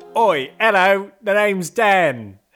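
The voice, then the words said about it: Put-on London accent. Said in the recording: “We are making our way into several Londons today, as you can tell by ... accent”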